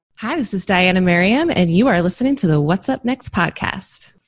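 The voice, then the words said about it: Polished radio announcer voice. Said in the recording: “It's like you've been on radio or something. ... That was like my radio voice.”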